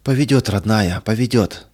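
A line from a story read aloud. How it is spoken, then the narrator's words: Breathless mother. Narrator (Russian): выдохнула мать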